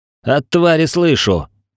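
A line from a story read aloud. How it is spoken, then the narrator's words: Growled, struggling. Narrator (Russian): прорычал в ответ, пытаясь вырваться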